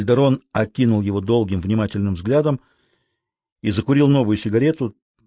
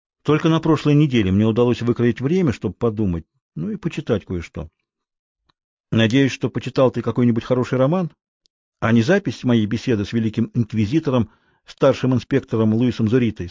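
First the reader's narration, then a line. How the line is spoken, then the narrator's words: Plain. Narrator (Russian): сказал Кальдерон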